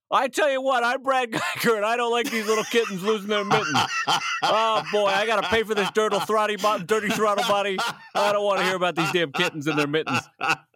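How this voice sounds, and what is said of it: Impression of Brad Geiger. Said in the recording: “throwing the name into the impersonation”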